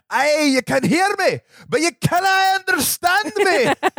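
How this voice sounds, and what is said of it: Put-on thick Scottish accent. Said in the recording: “in a thick Scottish accent”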